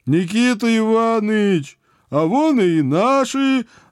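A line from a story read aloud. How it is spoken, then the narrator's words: Joyful howl. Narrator (Russian): радостно взвыл Митяй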